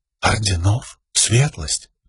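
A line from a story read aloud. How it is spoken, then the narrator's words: Asking again. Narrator (Russian): переспросила Шалан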